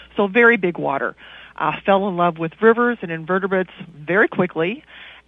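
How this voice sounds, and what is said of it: Kentucky Southern twang. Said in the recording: “you probably hear a twang in my voice. I'm a Kentucky girl, born and bred”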